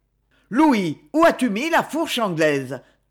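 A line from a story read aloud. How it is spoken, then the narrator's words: Thundering. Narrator (French): tonna-t-il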